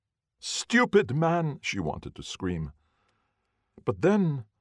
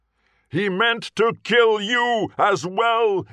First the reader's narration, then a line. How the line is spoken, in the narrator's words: he roared